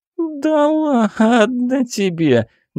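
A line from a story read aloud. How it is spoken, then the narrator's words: Whiny little voice. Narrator (Russian): ноющим голосочком произнесла Лиза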